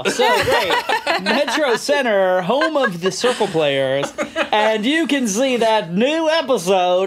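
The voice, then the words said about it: Exaggerated radio announcer voice. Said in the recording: “I'm doing my various radio voices ... It sounds a little bit like Quagmire from Family Guy”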